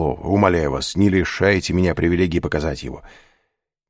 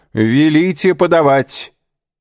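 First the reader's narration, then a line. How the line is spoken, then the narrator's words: Loud shout. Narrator (Russian): громко крикнул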